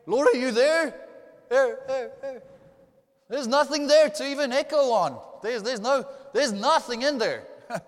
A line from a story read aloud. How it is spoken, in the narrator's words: she shouted into the cave